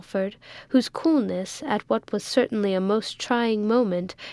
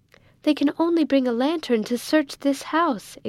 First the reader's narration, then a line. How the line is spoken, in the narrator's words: exclaimed Rose